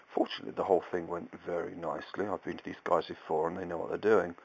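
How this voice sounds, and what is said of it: Numb-mouthed, slightly altered speech. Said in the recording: “my voice is a little different because I'm not moving my mouth as much as I normally would, and I'm still full of anaesthetic”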